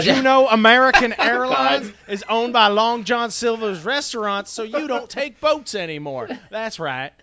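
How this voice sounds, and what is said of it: Exaggerated generic Southern US accent. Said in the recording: “just generic Southern, insultingly Southern accent”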